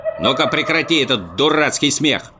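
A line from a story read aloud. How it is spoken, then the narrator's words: Stern shout. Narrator (Russian): строго прикрикнул Муми-тролль, увидев, что противник меньше его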